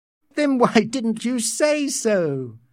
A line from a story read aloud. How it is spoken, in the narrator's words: Lenina laughed